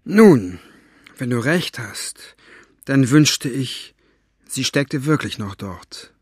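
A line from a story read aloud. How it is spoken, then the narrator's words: Sighing. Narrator (German): sagte Fenoglio mit einem Seufzer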